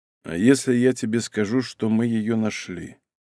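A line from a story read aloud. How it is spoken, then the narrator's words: Quiet. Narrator (Russian): Малинин тихо произнес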